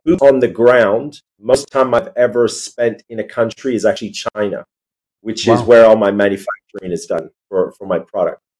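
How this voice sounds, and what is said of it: Californian accent. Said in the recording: “more Californian accent, I guess”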